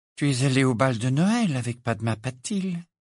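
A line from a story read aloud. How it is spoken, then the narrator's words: Absent-minded tone. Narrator (French): dit une voix d'un ton absent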